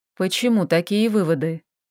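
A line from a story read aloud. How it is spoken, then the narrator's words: Gentle question. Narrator (Russian): мягко спросил эльф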